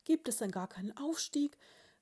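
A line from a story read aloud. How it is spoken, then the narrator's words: Dormouse bride, stunned cry. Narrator (German): rief die Haselmausbraut fassungslos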